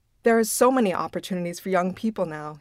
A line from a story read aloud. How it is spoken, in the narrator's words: he said